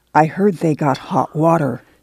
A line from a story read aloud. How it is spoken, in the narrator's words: She whispered